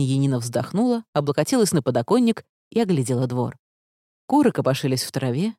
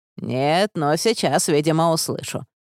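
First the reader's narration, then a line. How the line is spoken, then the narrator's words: Grumbling. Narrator (Russian): проворчала она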